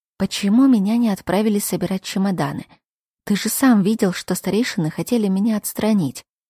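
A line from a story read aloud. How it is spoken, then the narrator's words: Relieved whisper in ear. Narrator (Russian): Я с облегчением вздохнула и потянулась к Лерою, чтобы прошептать на ухо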